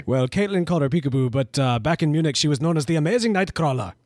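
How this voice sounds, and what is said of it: Put-on German accent. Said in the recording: “Even had the German accent. That was good.”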